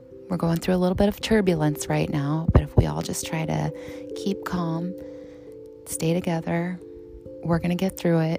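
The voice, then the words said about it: Calm, soothing radio-announcer voice. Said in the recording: “NPR voice, my calming voice, my radio voice, my stewardess voice”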